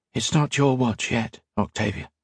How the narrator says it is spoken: he whispered

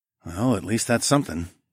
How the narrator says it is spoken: I muttered

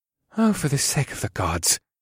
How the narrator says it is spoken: Bukoth muttered in mild annoyance

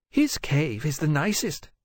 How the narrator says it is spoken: Pasitia said anxiously

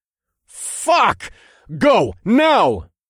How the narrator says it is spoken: the two women shouted the spell in unison

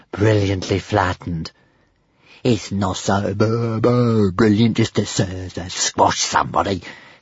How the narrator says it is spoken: hissed Toothless in a jealous fury

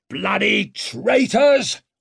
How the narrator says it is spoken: roared that old bastard with the gouty leg

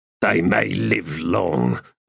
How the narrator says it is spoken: the first man said in a low grumble

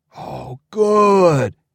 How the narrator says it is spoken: moaned

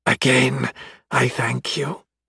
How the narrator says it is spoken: said, voice raspy

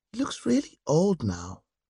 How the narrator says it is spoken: After a moment, Sunday said quietly

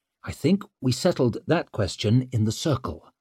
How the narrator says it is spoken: said Leo stiffly

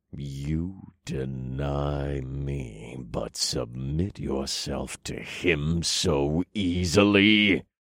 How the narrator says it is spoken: He snarled, and his voice made the clouds rumble

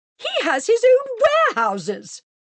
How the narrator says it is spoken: exclaimed Mrs

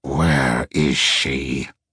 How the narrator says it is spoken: growled

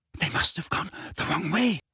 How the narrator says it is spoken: whispered Hermione, terror in her face

